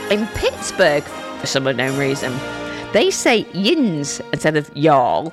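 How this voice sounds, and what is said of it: Weak attempt at American accent. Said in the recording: “My American accent needs some working on, doesn't it?”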